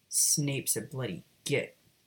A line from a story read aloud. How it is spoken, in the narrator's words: Sirius grumbled